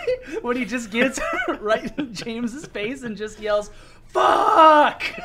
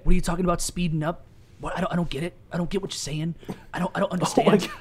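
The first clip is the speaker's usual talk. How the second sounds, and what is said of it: Imitates another person's voice. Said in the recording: “that's a good Lars”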